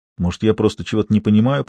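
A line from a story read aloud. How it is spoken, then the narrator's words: Confused whisper. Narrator (Russian): прошептал в растерянности Виктор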